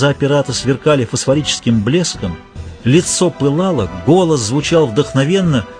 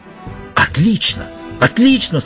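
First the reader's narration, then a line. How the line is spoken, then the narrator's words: Joyful exclamation. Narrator (Russian): с радостью воскликнул пират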